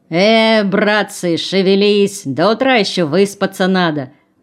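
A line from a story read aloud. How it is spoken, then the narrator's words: Cheerful bark. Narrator (Russian): рявкнул он весело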